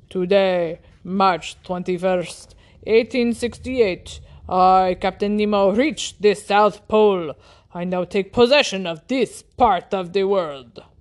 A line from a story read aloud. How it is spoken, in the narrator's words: he announced solemnly